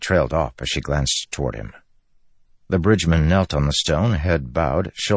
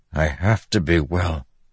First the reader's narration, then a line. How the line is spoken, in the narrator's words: Kaladin said, his voice hoarse